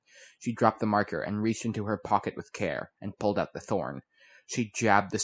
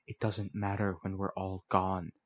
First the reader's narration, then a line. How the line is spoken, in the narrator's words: the figure whispered, quieter